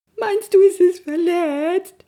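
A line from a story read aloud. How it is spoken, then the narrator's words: Sobbing. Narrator (German): schluchzte er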